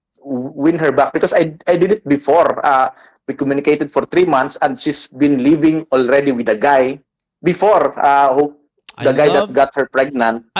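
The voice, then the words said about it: Filipino Bisaya accent, rolled R's. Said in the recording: “I love the way you roll your R's ... I'm sorry for the accent ... I'm pure Bisaya”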